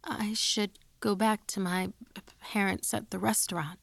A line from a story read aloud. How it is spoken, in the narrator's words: I stammered